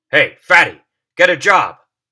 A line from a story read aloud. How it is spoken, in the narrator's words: someone shouted